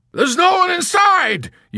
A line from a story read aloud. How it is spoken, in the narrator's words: yelled Hungry Joe